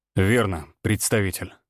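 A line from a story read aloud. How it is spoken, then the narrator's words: Smirking grunt. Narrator (Russian): Всеволод хмыкнул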